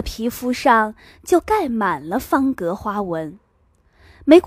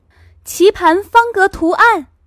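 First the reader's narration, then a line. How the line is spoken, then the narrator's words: Shouting. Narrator (Chinese): 另一个人大叫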